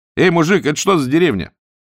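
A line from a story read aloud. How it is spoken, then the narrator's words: Shout. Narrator (Russian): Летчик крикнул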